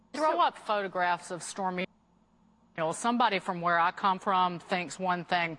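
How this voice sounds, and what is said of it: Noticeable regional accent. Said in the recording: “Wait till you hear the accent.”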